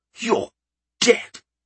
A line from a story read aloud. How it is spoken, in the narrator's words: he managed to gasp, the words coming out as barely a wheeze